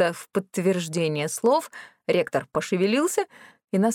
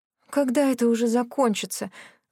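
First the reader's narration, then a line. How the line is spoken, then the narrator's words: Groaning. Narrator (Russian): застонала я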